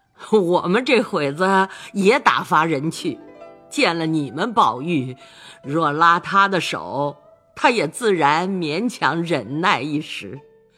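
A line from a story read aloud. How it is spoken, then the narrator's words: Old woman, laughing. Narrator (Chinese): 贾母也笑道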